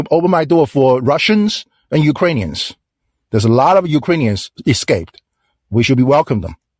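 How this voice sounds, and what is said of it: Chinese-accented English. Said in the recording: “where are you from, by the way? Just your accent. ... I'm from China.”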